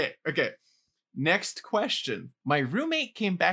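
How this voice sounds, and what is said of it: Usual voice. Nothing is said of it.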